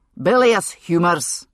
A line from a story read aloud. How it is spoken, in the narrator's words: MacLeod said loudly